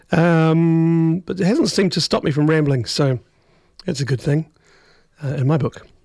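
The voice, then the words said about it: Damaged, strained speaking voice. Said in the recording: “my voice is poked”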